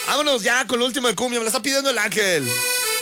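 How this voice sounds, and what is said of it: Exaggerated radio announcer voice. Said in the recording (Spanish): “la voz del locutor exagerado”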